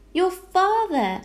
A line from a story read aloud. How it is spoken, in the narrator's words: exclaimed Homily